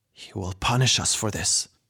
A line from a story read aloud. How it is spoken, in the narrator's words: the tiger warrior snarled